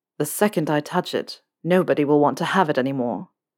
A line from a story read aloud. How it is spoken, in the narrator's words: Draco said quietly